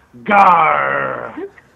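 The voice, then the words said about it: Pirate character voice. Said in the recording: “your best pirate impression”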